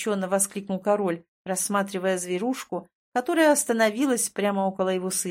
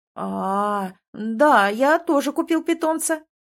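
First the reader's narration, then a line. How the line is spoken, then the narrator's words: Quick reply. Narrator (Russian): тут же ответил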